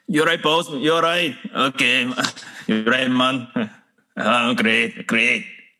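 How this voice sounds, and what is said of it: Put-on Scottish accent. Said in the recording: “can you do your Scottish accent”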